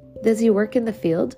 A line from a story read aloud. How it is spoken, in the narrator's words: Ricky laughed